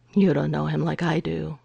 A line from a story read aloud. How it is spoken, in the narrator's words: Gregor murmured